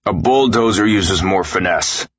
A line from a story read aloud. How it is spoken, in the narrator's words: Coach barked at me